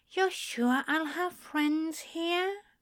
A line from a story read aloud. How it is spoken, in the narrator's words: asked in a tiny voice that broke Crowley's heart